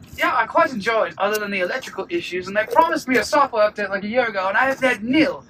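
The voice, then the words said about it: Put-on British accent. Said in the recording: “I'm not gonna do a British accent... Oh no, no, you must.”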